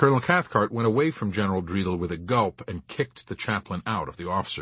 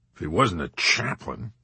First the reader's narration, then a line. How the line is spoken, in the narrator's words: General Dreidel muttered